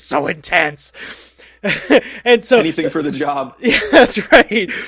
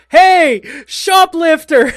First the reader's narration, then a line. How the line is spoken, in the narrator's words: the intense stock boy goes after him and then sees a cop across the street and yells